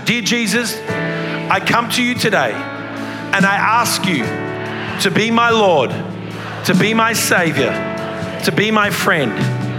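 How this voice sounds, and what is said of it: Australian accent. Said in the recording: “forgive me for my accent. ... You get a different accent than mine. ... even Australians”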